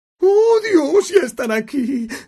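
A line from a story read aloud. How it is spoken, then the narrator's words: Desperate tone. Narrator (Spanish): dijo tía Petunia en tono desesperado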